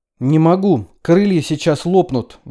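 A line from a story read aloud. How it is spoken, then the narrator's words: Sudden shout. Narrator (Russian): вдруг крикнула Хелен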